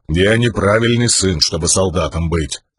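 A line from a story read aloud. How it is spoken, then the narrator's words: Stubborn grumble. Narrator (Russian): упрямо проворчал камень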